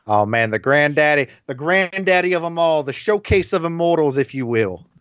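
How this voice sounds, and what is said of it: Imitates another person's voice, poorly. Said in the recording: “my horrible Dusty impression”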